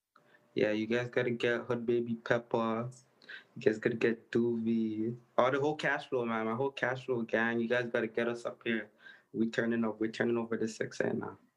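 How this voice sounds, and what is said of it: Toronto accent. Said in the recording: “Is this a Toronto accent? ... yeah, it's a Toronto accent.”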